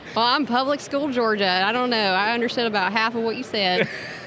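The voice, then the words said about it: Noticeable regional accent. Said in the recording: “Love the accent, by the way... Do you realize you speak in an accent?... I got called out for saying certain words like bowl... bowl, oil, and roll”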